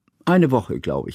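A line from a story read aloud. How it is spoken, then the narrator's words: Plain. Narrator (German): sagte Johanna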